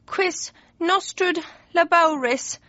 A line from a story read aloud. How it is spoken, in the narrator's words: he moaned